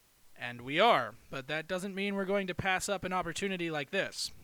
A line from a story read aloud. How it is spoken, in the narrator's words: the captain responded smoothly, having thought ahead for this kind of conversation